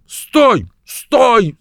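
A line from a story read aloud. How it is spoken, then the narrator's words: Sudden realizing shout. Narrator (Russian): закричал Джефферс, вдруг сообразив, в чем дело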